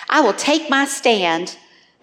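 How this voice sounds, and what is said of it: Southern US accent. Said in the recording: “That sounded really Southern.”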